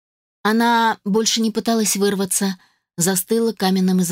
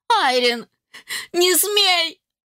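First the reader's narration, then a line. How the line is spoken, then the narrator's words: Mother shouting. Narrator (Russian): закричала матушка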